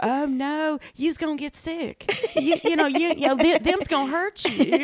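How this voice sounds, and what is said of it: Southern Georgia-accented cartoon character voice. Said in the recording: “that character has this. I'm like, that is a Georgia... Is a Southern gay man... that is such a Georgia sound”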